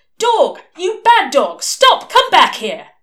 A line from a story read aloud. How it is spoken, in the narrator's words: shouting clearly, loudly, and distinctly